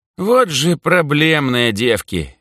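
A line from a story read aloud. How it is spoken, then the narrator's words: Heavy sigh, sarcastic. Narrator (Russian): Митька тяжело вздохнул и язвительно добавил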